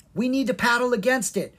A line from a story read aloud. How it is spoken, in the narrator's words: Kara cried